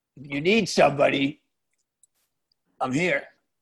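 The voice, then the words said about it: Impression of a local man. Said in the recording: “I'll do a respectful impression of him.”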